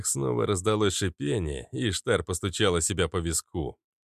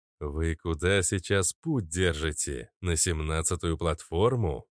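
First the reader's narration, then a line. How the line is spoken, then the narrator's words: Plain. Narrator (Russian): спросил агент Смит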